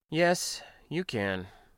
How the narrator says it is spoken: replied simply, even calmly

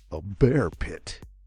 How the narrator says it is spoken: gasped Jerry

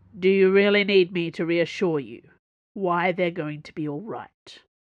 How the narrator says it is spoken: said finally

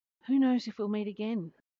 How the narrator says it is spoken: he said with a sigh

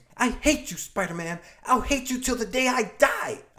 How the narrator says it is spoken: There are tears running down her cheeks as she screams

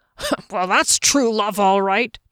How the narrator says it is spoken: Janek snorted

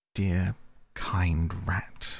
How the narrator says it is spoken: murmured Toad

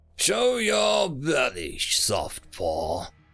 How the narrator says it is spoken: the virile's roar echoed through the promenade

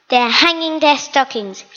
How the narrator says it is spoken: he snarled with a sneer

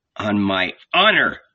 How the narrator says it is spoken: snapped Peter

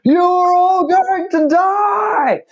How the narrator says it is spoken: you can hear shouting

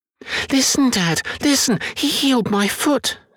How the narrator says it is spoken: squeaked Billy

